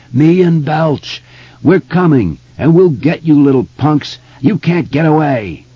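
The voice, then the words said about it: Demented, howling character voice. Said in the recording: “His voice was utterly demented. He was laughing and howling now. He sounded like something that has crawled out of a crack in the roof of hell.”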